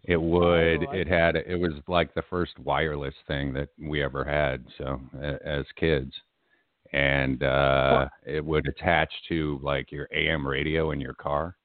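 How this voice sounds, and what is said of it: Unusually deep radio voice. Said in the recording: “you are even deeper than usual today. You got that deep voice going. ... I love your radio voice”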